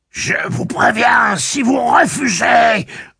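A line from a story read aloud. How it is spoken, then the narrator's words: Shrill unpleasant bark. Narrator (French): Othé aboya, émettant un son aigu et peu avenant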